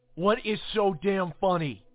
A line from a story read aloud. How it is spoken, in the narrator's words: I bellowed